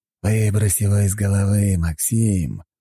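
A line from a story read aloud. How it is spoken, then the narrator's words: Hissed. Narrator (Russian): прошипел он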